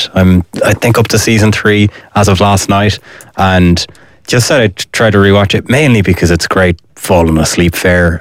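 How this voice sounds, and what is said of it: Sick, under-the-weather voice. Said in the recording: “you can probably hear from my voice this week that I'm not in the best nick. I'm a bit under the weather.”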